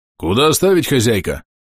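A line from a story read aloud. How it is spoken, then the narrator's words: Deep bass voice. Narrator (Russian): басил один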